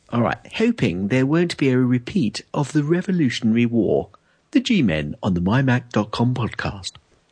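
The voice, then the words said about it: Put-on posh British accent. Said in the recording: “I think this first one should have a Brit voice. ... do you want a proper Brit voice? ... it's got to be a proper Brit voice. ... Queen's English, then.”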